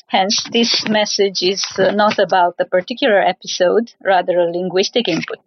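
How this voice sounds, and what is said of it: Strong Eastern European accent. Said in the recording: “my strong Eastern European accent”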